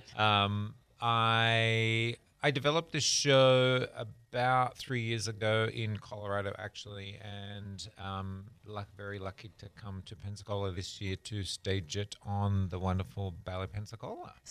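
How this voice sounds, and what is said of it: Slight Australian accent. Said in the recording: “I am originally from Australia. You'll probably pick up a little bit of an accent as I talk.”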